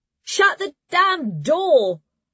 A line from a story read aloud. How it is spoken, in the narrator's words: A shout from the grey dormitory